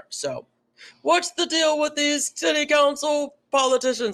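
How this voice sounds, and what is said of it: Imitates another person's voice. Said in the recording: “my Jerry Seinfeld impression”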